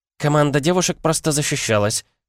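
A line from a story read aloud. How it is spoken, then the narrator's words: Innocent little voice. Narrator (Russian): промолвила та невинным голоском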